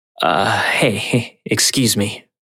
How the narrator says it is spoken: slurred out

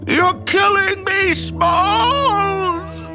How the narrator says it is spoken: Ham shriek

